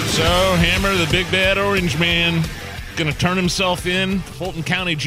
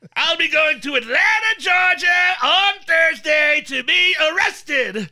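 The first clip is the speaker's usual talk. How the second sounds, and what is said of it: Imitates another person's voice. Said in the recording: “read his Truth Social post in my Trump voice”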